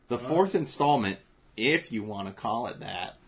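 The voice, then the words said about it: Put-on hillbilly accent. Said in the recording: “the hillbilly accent.”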